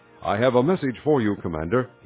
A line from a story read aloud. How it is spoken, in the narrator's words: he said